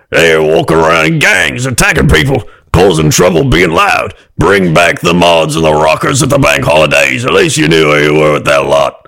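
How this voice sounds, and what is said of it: Angry British grandpa voice. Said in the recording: “can you try one more time in an angry grandpa voice? ... angry ... British ... grandpa.”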